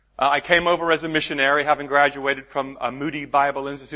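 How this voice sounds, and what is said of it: American accent. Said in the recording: “Don't let my accent throw you. I know that it sounds American. In fact, it is American.”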